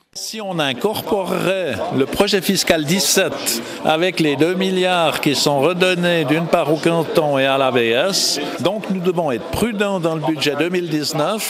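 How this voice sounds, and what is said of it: Strong Vaud Swiss French accent. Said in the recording (French): “Un bon gros vaudois”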